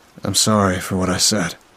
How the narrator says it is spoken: Josh muttered

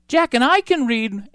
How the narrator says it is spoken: Annie piped up

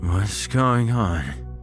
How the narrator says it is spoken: He asked, his speech slurred

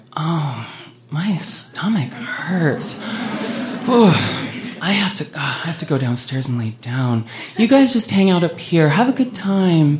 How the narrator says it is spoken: Heather groaned and was like

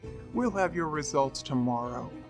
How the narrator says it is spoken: grumbled

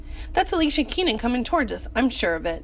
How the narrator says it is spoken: Tony exclaimed

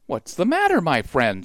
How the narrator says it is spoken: she asked kindly

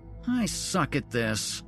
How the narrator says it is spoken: she whined

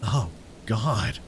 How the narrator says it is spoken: whispered, fighting back the urge to vomit

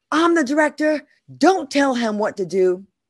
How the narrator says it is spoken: He yelled

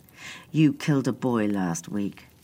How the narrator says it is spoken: Adam said, his voice cold

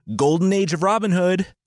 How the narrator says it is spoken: Robin yelled

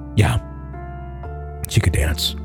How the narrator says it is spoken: Mark answered softly

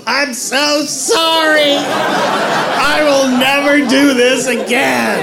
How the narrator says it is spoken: As I yelled out the window

